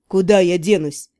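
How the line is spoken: Grumbling. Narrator (Russian): проворчал

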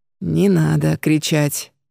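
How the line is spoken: Creaky voice. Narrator (Russian): проскрипел долговязый

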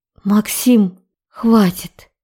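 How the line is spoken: Tired whisper. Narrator (Russian): Прошептала, устало

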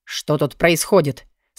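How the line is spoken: Stern question. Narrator (Russian): строго спросил Алви

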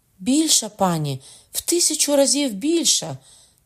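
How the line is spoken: Cried out. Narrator (Ukrainian): скрикнула Шарлота

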